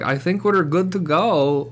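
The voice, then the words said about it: Put-on Russian accent. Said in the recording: “Doing that guy's accent... the Russian dude”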